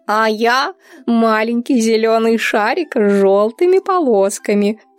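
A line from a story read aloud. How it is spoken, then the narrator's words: Happy laughing. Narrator (Russian): придумала Грыся и, смеясь от счастья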